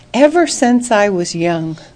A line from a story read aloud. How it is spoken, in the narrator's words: Abraham said very dryly